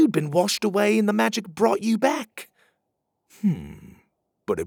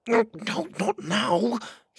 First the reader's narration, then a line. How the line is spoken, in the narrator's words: he whispered